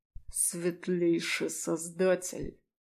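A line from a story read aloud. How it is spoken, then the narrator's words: Forced through clenched teeth. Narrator (Russian): Сквозь зубы выдавил демон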